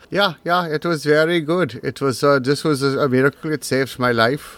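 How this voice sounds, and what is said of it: Fake Berlin German accent, slightly Russian. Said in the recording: “I do this accent ... random American doing a fake Berlin accent, that it did have a twinge of Russian in it.”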